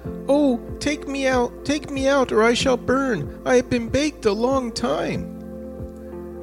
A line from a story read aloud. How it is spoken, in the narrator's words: the bread cried out